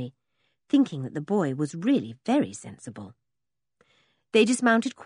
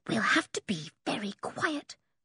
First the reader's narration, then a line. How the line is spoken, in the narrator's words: whispered